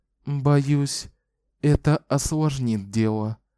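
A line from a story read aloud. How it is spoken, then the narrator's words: Sighing. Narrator (Russian): вздохнула Шота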